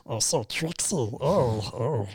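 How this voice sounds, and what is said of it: Gollum character voice, convincingly done. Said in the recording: “I got Gollum down... That's your Gollum... That's pretty scary good, actually”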